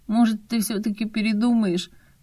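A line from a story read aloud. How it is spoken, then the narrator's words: Unhappy question. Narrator (Russian): Несчастным голосом спросил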